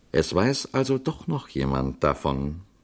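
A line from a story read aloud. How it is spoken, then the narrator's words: Calm. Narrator (German): sagte der Priester ruhig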